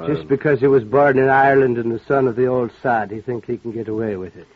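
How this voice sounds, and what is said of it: Put-on Irish accent as Clancy. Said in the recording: “Let's just be Eddie Kirk and not Clancy, huh? ... You mean you don't want any more Irish?”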